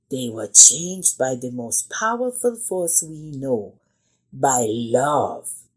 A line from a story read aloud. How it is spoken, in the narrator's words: interrupted Zio, his voice becoming softer